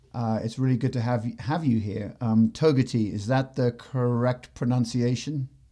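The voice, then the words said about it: English accent. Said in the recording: “having an English accent”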